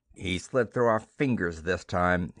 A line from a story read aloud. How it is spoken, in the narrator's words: he told Gamor bitterly